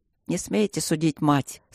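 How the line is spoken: Said sternly. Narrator (Russian): строго сказал он

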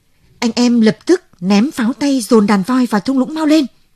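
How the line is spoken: Old man shouting loudly. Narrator (Vietnamese): Đặng lão trượng thét lớn

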